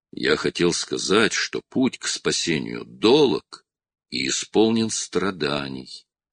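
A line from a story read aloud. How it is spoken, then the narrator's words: Soft. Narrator (Russian): мягко проговорил он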